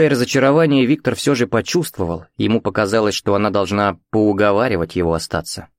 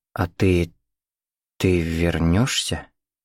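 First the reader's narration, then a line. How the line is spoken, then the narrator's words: Slow speech. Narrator (Russian): медленно проговорила Катя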